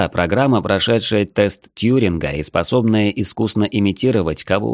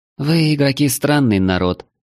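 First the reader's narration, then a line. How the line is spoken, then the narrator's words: Sighing. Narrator (Russian): вздохнула Вельди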